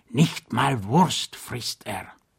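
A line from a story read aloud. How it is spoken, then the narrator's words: Whisper in the ear. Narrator (German): flüsterte er ihm ins Ohr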